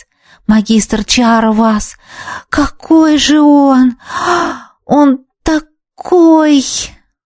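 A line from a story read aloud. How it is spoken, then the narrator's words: Breathless admiring girl. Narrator (Russian): выдохнула восхищенно девушка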